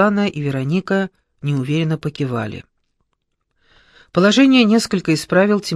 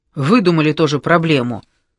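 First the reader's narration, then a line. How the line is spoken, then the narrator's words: Snort. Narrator (Russian): он фыркнул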